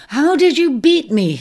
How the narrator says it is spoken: he panted, puzzled since he had not seen her overtake him

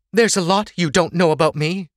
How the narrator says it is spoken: Sorsha snapped

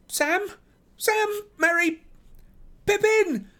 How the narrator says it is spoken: Fear took him, shouting wildly

